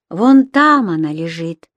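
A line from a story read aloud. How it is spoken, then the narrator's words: Sighing. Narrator (Russian): вздохнул брат Нано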